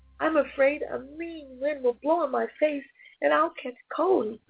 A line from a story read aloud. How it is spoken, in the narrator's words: Mark called out yet again